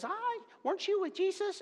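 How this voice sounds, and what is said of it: Imitated little girl voice. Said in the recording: “in my best little girl voice”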